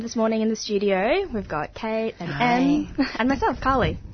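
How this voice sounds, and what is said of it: Polished radio presenter voice. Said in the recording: “you have such a good radio voice ... Very good ... It's what you want to wake up to.”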